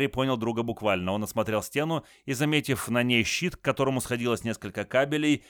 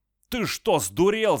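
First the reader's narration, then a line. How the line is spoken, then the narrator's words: Yelling while coughing. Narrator (Russian): заорал он, закашлившись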